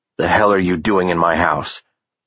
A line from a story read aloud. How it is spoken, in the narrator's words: Ethan's voice came out like a low growl